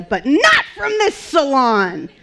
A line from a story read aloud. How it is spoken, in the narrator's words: yelled